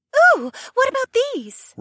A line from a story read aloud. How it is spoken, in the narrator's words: Ravi squeaked from a different area